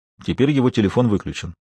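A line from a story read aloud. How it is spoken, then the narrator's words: Dry, curt. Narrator (Russian): сухо произнес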